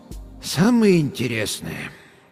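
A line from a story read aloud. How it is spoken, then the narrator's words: Sighing. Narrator (Russian): доктор вздохнул еще раз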